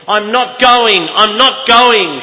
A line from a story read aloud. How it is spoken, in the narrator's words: shouted